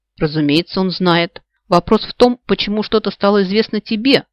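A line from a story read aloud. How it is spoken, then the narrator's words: Smirking snort. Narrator (Russian): хмыкнул Себастьян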